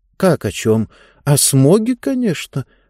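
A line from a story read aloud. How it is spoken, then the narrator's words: Confused answer. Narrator (Russian): растерянно ответила Диба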